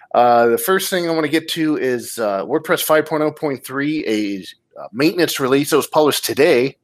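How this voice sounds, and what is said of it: Slightly rough voice after a cold. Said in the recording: “if my voice is a little weird or you hear me trying to clear my throat. It's after effects of the cold”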